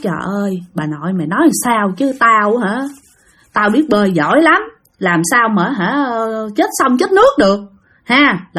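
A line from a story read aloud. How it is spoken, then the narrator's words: Grumbling. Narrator (Vietnamese): Ông Hải cũng cằn nhằn nói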